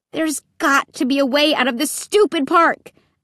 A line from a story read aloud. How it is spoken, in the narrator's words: I cried angrily